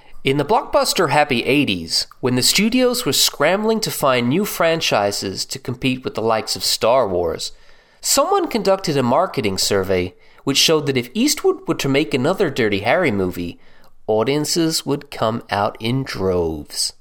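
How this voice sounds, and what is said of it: Convincing put-on American accent. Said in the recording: “may I compliment you on your American accent? ... Very well done. Just about passed as a native.”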